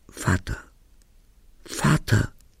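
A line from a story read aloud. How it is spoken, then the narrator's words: Screamed. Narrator (German): ich schrie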